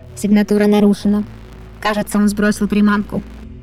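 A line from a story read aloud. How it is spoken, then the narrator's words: Dry. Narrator (Russian): продолжил он уже сухо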